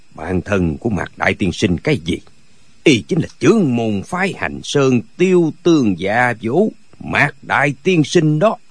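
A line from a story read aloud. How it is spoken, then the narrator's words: Cold. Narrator (Vietnamese): Gã râu đốm bạc nói một cách lạnh lùng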